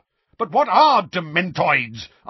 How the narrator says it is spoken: asked Uncle Vernon furiously

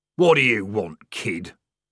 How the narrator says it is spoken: growled the corporal

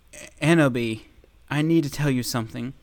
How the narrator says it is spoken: he said in a serious voice

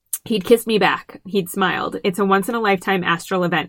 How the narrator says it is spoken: said

